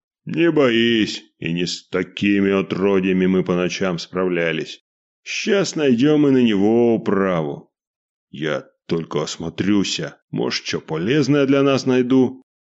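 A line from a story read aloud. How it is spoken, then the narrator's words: Deep bass voice. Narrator (Russian): пробасил Василий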